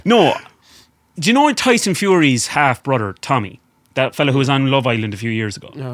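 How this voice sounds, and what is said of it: Usual voice. Nothing is said of it.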